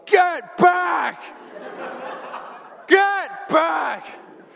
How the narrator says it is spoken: with all the adrenaline that is now charging through my body, and I just shout

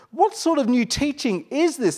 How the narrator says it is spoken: They asked excitedly

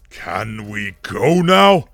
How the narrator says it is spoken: Angrath roared with displeasure

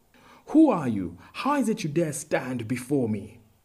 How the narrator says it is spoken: Pwan Ali asked him fiercely

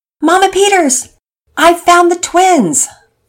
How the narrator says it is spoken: A relieved Penelope shouted

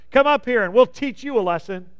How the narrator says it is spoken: Then the men from the outpost shouted to Jonathan

